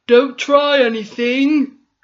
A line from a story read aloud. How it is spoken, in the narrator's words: the captain shouted